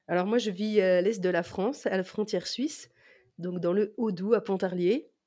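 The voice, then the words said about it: Slight regional French accent. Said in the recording (French): “D'où ce, petit accent hein, qu'on entend. ... fort ... exotique, je le conçois.”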